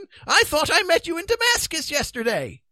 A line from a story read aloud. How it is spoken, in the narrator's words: exclaimed the terrified man